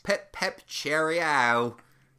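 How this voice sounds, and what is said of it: Bad fake British accent. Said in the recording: “his terrible British accent”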